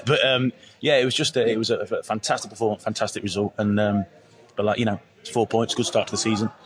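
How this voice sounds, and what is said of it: Hoarse, partly lost voice. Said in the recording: “I've lost my voice a little bit”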